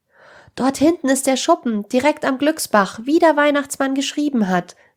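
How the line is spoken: Joyful call. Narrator (German): rief Jonas mit freudiger Stimme

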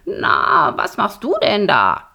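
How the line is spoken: Croaking. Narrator (German): krächzte Borax

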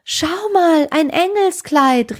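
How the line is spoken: Calling out. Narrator (German): rief sie

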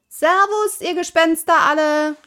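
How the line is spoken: Called out. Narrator (German): rief Pippi

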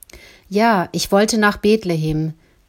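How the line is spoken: Firm steady storytelling voice. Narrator (German): sagte Oma Geli, die Geschichte mit fester Stimme weitererzählend

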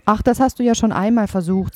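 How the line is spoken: Plain motherly voice. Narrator (German): sagte die Mutter

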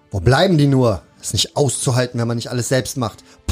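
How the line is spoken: Loud blustering rant. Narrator (German): polterte durch die Halle

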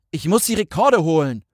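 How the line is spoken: Roaring. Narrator (German): brüllte

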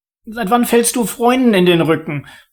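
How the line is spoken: High-pitched squeak. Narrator (German): piepste Oliver mit hoher Stimme

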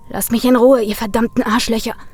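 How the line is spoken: Angry hiss. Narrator (German): fauchte Brian

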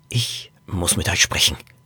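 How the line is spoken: Whispered. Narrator (German): flüsterte Norbert

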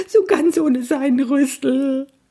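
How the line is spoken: Sobbing. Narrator (German): schluchzte er

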